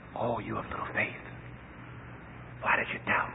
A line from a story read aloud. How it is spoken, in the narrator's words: He whispers in his ear